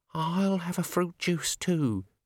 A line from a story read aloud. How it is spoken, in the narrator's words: she quavered